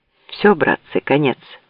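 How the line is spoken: Quiet. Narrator (Russian): тихо проговорил Бабкин

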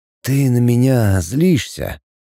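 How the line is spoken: Quiet. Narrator (Russian): тихо сказал Пятый

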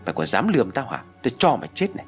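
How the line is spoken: Loud shout. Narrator (Vietnamese): Hà quát lớn

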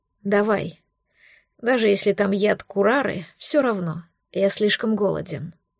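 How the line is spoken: Calm. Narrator (Russian): Лютый спокойно сказал

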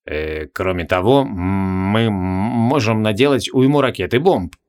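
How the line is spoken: Uncertain suggestion. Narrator (Russian): неуверенно предложил Лакластарос

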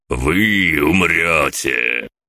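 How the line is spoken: Guttural lizard growl. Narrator (Russian): Ящер, а это очевидно был спутник, утробно зарычал

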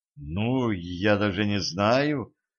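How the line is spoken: Confused drawl. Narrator (Russian): растерянно протянула Катран

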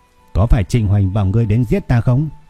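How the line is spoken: Smiling question. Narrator (Vietnamese): Tôi mỉm cười và hỏi

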